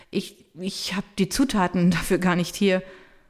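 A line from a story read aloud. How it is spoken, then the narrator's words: Stammering. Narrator (German): sagt stotternd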